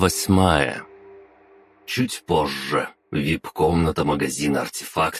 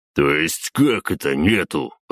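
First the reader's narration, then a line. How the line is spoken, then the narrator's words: Growl. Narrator (Russian): рыкнул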